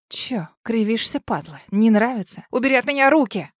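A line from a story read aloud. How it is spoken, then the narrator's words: Hoarse, wheezing struggle. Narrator (Russian): хриплю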